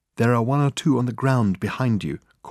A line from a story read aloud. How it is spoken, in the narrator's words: called Reg softly